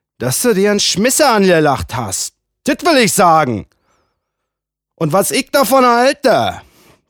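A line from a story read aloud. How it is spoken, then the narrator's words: Man bellowing. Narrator (German): Der Mann brüllt jetzt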